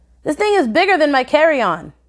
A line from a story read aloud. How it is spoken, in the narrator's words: Rob exclaimed, calling me